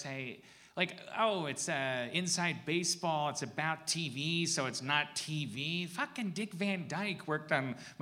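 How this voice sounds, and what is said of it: Imitates another person's voice. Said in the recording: “My impression is fading. ... I can't tolerate your impression. ... That was the best Kumail Nanjiani impression.”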